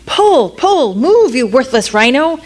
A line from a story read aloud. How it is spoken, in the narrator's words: the prince, thinking of that gold, waved a whip in the air and shouted